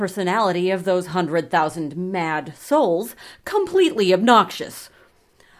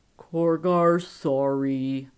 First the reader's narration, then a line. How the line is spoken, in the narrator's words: rumbled